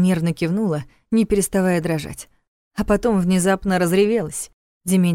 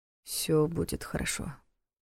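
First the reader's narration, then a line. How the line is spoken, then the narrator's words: Mumble. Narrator (Russian): пробормотал Дементьев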